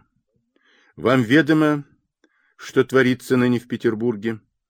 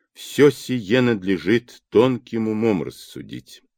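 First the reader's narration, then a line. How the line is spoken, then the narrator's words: Slow and quiet. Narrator (Russian): медленно и негромко сказала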